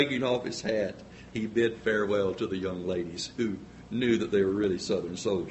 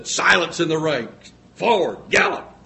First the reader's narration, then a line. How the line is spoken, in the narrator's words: sternly said